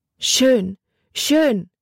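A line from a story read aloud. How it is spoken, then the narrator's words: Call with strong accent. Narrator (German): rief sie mit einem starken Akzent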